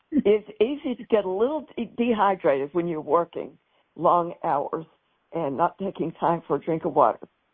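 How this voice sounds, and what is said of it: Tired but joyful voice. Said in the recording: “my voice sounds a little tired today ... I hope you also hear the joy in my voice”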